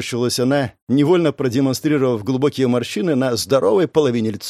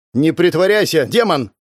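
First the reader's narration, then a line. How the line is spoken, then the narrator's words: Barking. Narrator (Russian): рявкнула вечно вторая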